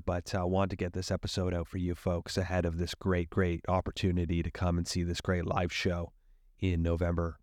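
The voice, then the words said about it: Slightly husky voice. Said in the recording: “if my voice is a little husky. I'm a little under the weather”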